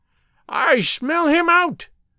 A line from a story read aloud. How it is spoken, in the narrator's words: shrieked